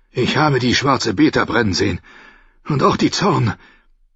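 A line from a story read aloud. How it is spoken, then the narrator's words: Hoarse, halting voice. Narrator (German): brachte er schließlich heiser hervor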